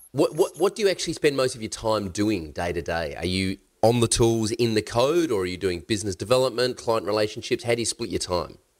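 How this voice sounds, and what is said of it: Nasal, congested voice. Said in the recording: “I actually sound quite nasally... that's why I sound a bit weird... recovering from the man flu”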